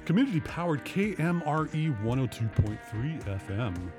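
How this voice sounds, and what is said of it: Low, subdued radio DJ voice. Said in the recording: “Ooh, that was low and subdued. ... radio DJ voice”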